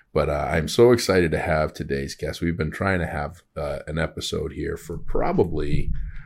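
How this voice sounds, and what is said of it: Slightly tired voice. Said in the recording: “My voice is probably getting a little bit tired”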